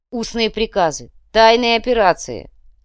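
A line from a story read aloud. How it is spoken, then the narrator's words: Snorted. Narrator (Russian): Ратамир фыркнул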